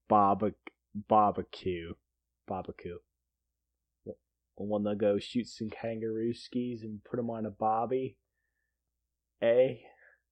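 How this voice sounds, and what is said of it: Put-on Australian accent. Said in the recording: “live in like Australia ... Is that your accent?”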